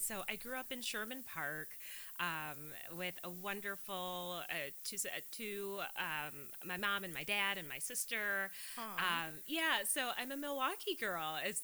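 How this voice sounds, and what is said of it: California-sounding American accent. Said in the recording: “people say that I sound like I'm from Cali ... You do have a California accent. I can hear it.”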